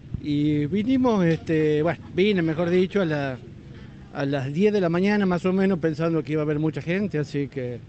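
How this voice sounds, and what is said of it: Northern Argentine regional accent. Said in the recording (Spanish): “te notaba ahí la tonada”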